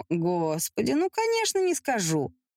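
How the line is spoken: Mocking reply. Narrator (Russian): насмешливо ответила Эмилия

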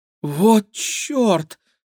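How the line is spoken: Shocked exhale. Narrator (Russian): потрясенно выдохнула Кира

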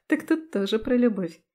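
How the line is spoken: Giggling reply. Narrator (Russian): хихикнула в ответ

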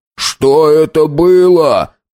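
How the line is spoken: Shouted. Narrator (Russian): прокричал Хиллари

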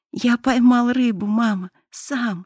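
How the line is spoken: Joyful reply. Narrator (Russian): радостно ответил Мишка

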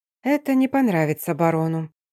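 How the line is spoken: Quiet mutter under breath. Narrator (Russian): тихо пробормотала себе под нос

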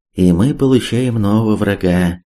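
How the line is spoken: Old man's inward sigh. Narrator (Russian): вздохнул про себя старый Чуд

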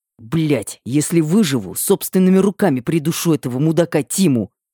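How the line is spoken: Angry through teeth, young man. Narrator (Russian): злобно процедил парень

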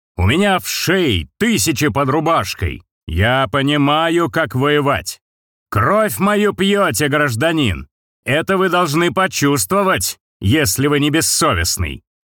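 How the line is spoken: Shouting crowd. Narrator (Russian): Они кричали

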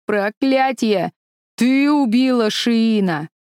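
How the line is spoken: Old man shouting angrily. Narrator (Russian): Старик вдруг гневно закричал

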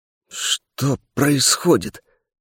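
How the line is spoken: Hoarse croak. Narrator (Russian): прохрипел я

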